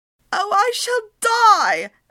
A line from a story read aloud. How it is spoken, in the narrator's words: Annabelle wailed